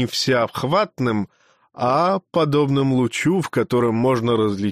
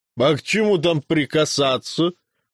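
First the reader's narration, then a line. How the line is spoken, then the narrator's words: Mocking bearded man. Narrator (Russian): насмешливо сказал бородач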